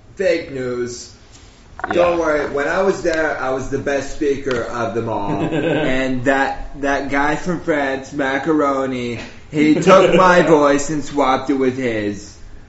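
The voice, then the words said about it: Donald Trump impression. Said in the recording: “That's how you do a Donald Trump impression.”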